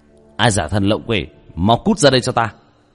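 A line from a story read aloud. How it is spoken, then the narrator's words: Stern shout. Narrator (Vietnamese): hít sâu một hơi, nghiêm nghị quát lên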